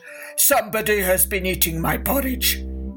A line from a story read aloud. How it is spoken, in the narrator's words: he growled in his great big gruff voice